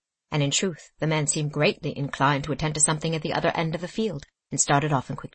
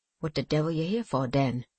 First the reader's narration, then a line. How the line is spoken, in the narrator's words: said the man, evidently cowed and sullenly